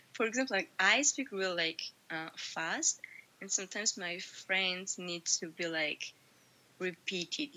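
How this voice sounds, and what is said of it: Georgian-accented English. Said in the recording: “Your accent is really good. We get to hear the Georgian in your language. I mean, in your voice”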